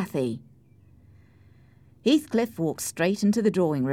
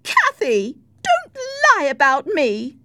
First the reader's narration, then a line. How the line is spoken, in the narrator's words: cried Isabella